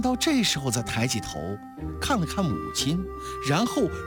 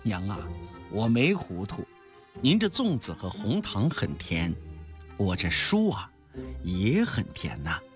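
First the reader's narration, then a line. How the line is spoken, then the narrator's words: Smiling. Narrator (Chinese): 陈望道也笑了，他说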